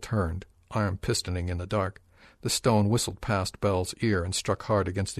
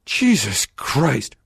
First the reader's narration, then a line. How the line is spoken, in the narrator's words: Bell yelled